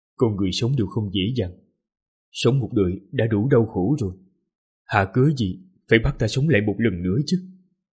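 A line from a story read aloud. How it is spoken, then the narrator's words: Mumbled. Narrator (Vietnamese): lẩm bẩm nói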